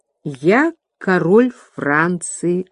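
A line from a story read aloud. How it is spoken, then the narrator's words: Plain. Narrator (Russian): ответил король Франции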